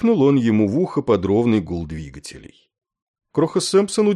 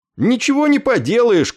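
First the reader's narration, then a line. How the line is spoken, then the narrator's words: Shouted reply. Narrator (Russian): крикнул ему в ответ Кроха Сэмпсон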